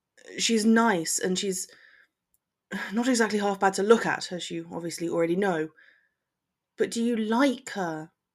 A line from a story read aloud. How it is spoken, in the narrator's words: Draco sighed